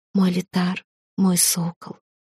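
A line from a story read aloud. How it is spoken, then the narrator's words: Passionate whisper. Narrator (Russian): шептала она, погружаясь в какое-то особенно яркое наслаждение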